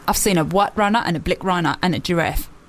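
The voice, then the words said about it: Put-on South African accent. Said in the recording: “I can do South African accent.”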